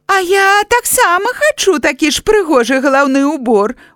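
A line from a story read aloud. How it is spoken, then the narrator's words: Exclaiming. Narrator (Belarusian): усклікнула паганка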